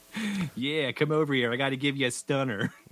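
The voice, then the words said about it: Bad put-on Delco accent. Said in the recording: “That was horrible impression... That was an awful Delco... like D doing an impression of a Delco”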